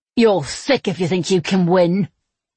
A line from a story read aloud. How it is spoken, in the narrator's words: Ches growled